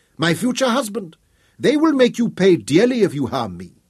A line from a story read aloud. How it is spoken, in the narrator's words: she cried